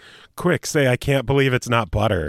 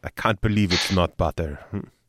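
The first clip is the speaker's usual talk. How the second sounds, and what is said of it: Imitates another person's accent. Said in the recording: “you have a pretty good accent for that line ... Oh, thank you, Fabio.”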